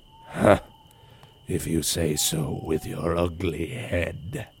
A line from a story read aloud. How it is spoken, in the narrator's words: growled the headless horseman